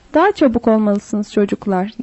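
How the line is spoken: Plain. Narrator (Turkish): dedi

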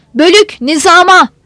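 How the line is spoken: Commander shouting. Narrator (Turkish): diye bağırdı kumandan

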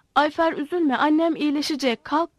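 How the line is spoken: Shouting. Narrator (Turkish): diye bağırdı

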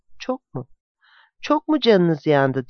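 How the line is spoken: Broken voice. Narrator (Turkish): Matthew bozuk bir sesle

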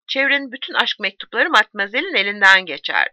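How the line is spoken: Plain. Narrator (Turkish): dedi

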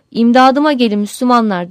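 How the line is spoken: Started crying out. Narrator (Turkish): diye haykırmaya başlamış

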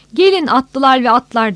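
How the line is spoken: Shouting. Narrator (Turkish): diye bağırıyordu

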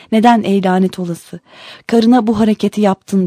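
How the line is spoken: Angry voice. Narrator (Turkish): Halife olup biteni haber alınca öfkeli bir sesle

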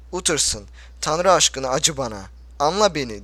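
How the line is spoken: Pleading. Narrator (Turkish): dedi yalvarırcasına

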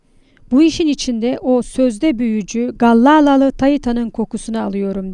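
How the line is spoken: Plain. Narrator (Turkish): dedi Ek Tank

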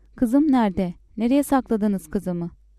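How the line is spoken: Shouting. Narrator (Turkish): diye bağırarak

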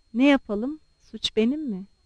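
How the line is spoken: Muttered. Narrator (Turkish): diye mırıldandı

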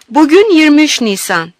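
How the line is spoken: Shouting again. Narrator (Turkish): diye tekrar bağırdım

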